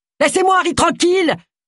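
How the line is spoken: Woman screaming. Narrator (French): hurla-t-elle

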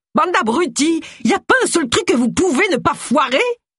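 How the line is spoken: Woman screams. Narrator (French): hurla-t-elle

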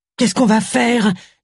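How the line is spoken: Moaned. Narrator (French): gémit Tracy

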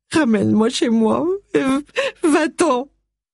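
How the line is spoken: Sobbing. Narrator (French): sanglota-t-elle

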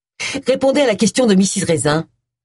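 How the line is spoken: Brusque tone. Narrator (French): dit-il d'un ton brusque

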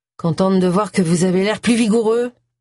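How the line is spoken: Grumbling. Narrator (French): bougonna Agatha

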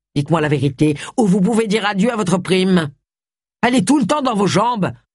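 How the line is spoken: Grumbling. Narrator (French): bougonna Gustave

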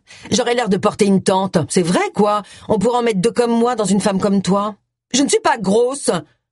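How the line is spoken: Furious voice. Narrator (French): lança Agatha d'une voix rageuse

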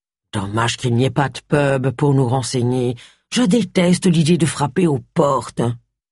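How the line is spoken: Grumbled. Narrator (French): grommela Charles

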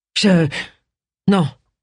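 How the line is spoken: Stammered. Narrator (French): balbutia Benny

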